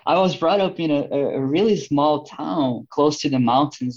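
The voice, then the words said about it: Brazilian accent. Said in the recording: “this is a Brazilian accent”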